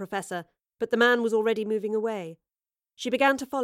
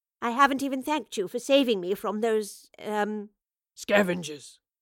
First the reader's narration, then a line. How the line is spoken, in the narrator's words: the man spat